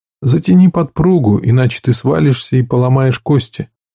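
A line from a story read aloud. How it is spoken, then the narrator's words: Calm voice. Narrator (Russian): Гивен спокойно сказал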